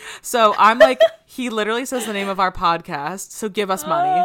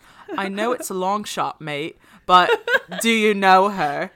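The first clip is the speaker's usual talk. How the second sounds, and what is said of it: Put-on British accent. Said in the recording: “I should try doing a British accent.”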